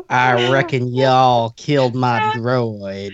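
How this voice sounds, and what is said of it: Cowboy accent. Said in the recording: “I want to hear ... with a cowboy accent.”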